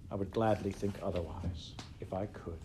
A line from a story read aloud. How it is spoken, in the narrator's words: she answered